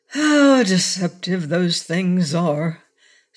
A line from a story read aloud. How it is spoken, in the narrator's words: sighed the king